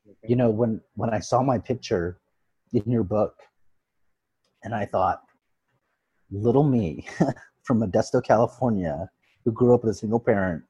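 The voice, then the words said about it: Emotional, moved speaking voice. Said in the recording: “I'm getting emotional, sorry.”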